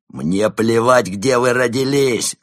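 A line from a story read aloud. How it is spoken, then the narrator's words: Loud bark. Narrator (Russian): рявкнул Барс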